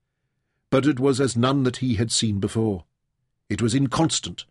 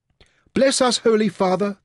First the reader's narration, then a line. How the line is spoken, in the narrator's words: pleaded